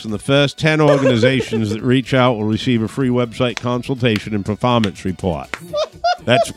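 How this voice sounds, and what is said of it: Put-on Maine accent. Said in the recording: “I love that Maine accent. That is so good.”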